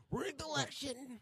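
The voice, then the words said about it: Imitates another person's voice, poorly. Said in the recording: “That was a really bad Donald Trump impression.”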